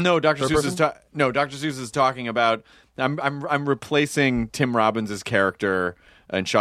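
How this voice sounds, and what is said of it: Usual voice. Nothing is said of it.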